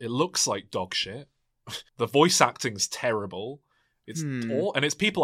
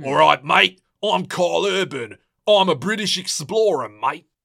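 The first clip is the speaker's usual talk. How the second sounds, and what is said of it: Mock bad British Cockney accent. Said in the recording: “doing his British accent that he's so good at doing ... he's a Cockney in The Boys. That's how bad his accent is.”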